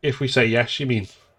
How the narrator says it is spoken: Lydia said

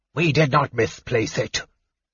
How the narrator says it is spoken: the cleric snarled

